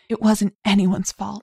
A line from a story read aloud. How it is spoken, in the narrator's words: she whispered hoarsely